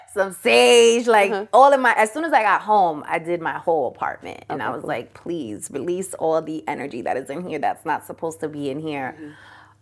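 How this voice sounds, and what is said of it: Speaker's own accent. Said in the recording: “I love your accent.”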